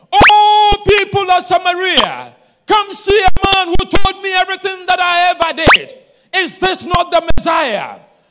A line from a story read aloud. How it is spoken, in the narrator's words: Started shouting